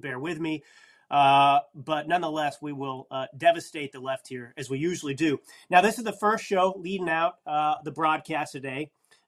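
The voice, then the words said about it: Slightly nasal, congested voice. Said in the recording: “I'm a little nasally. I've got a little cold.”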